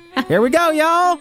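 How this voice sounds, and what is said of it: Folksy moonshiner character voice. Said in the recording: “I do my best moonshine impression ... I don't know why you're talking like me”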